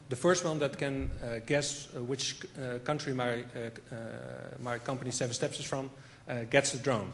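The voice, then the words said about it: Dutch-accented English. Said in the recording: “I mentioned my accent”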